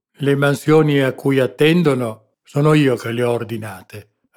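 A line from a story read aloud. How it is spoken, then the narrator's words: Sour, resentful retort. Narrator (Italian): ribatté lo spagnolo in tono acido, come risentendosi di qualche supposta punta satirica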